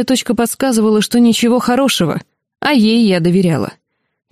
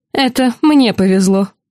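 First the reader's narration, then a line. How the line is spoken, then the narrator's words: Snort. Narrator (Russian): фыркнула она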